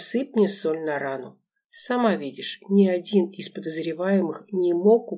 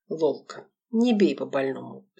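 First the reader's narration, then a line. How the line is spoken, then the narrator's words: Sigh. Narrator (Russian): вздохнул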